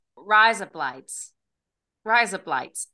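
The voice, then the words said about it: Australian accent. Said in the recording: “it sounds like razor blades in an Australian accent ... Do I sound Australian? ... You do sound Australian.”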